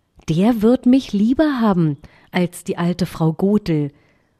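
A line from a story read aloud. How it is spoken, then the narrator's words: Plain. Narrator (German): und sagte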